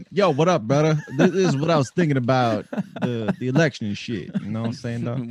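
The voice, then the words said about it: Put-on urban slang voice. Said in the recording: “what if I just did like urban voice? Like, can I speak in an accent?”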